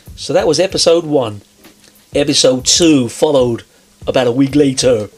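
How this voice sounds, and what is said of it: Put-on movie-style voice, poor American. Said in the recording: “It's a terrible American accent, by the way. ... It wasn't supposed to be American. It was supposed to be movie-based.”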